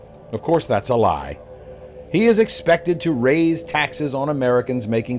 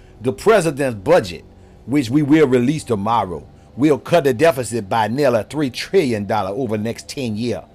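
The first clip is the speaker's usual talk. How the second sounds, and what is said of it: Imitates another person's voice. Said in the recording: “my imitation of Karine Jean-Pierre”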